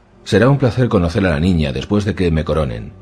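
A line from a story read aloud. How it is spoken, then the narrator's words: Plain. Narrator (Spanish): dijo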